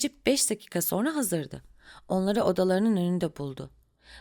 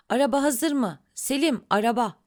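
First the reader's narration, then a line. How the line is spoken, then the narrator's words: Crying out. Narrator (Turkish): diye haykırdı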